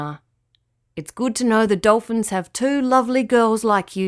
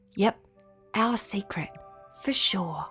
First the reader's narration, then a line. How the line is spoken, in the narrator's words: whispered Summer